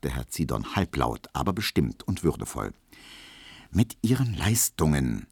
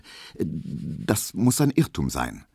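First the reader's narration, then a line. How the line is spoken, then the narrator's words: Stuttering. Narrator (German): stotterte Emil Kubinke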